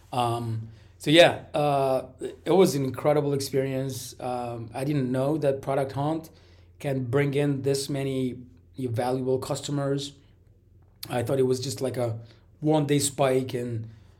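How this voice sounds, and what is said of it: Raspy, sick-sounding voice. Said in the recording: “Got a little flu going on, so my voice is like all raspy. ... I'm coughing”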